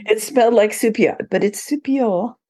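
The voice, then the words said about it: Bad put-on French accent. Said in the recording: “that's the worst French accent in the world”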